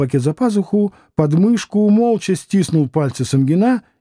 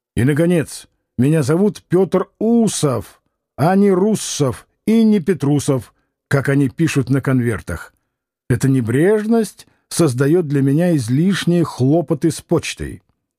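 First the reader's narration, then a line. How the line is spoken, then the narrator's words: Stern. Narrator (Russian): закончил строго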